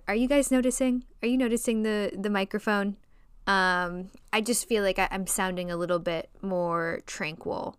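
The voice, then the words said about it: Nasal Chicago accent. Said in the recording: “a little bit more nasally than I typically am ... my nasally Chicago accent”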